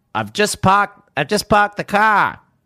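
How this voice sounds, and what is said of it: Failed Boston accent sounding Australian. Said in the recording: “I can't do Boston unless he talks about cars and parking ... No, I can't. That's Australian now.”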